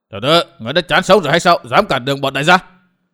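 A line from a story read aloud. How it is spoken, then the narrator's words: Fierce barking shout. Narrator (Vietnamese): Thạch Kiếm Cửu trợn mắt quát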